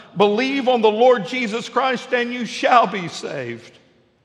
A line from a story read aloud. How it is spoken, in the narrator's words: Harper called out